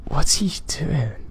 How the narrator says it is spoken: while my voice trembled and it stopped

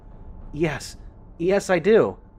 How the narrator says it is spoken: she said excitedly

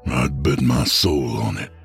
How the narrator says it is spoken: muttered Hank

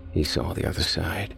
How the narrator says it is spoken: Rob murmured

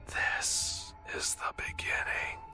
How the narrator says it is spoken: my reflection whispered, blood trickling out of my mouth as it spoke

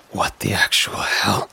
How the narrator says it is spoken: I said, my voice barely above a whisper

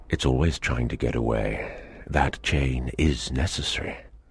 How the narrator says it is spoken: Sir John Rowell replied in a very serious voice

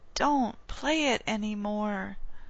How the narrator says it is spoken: pleaded or pled

